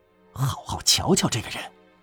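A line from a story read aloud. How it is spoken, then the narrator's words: Fast urgent whisper. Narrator (Chinese): 荣德雷特非常小声的急速对他说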